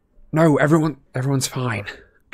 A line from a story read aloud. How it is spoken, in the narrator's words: gasped Harry, whose forehead felt as it were on fire